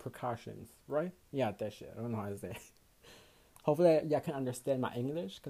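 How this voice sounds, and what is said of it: Accented English. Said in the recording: “I have a fucking accent when I speak English”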